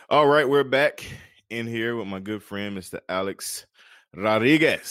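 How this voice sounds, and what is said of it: Says a name in a put-on accent. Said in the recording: “I like saying it with that accent.”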